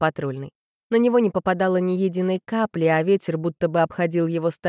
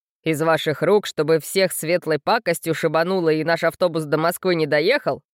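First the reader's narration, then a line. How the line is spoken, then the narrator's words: Scoffing snort. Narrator (Russian): хмыкнул Жорик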